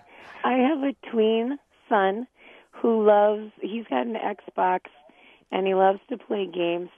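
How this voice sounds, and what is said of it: Rough, allergy-affected voice. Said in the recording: “I apologize for my voice ... Allergy season.”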